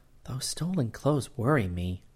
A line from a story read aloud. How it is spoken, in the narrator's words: she murmured